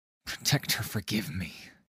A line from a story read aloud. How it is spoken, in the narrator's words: whispered, his voice wavering